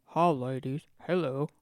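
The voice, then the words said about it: Very deep imitated voice. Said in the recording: “I'm Johnny Cash ... that particular impression ... it was a very deep voice”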